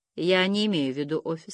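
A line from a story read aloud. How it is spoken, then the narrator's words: Very calm. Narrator (Russian): сказал он очень спокойно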